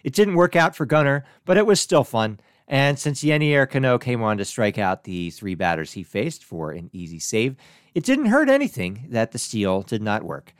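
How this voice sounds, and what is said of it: Ragged, strained voice. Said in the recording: “my voice is a little bit ragged in this episode, it's because I screamed really loud”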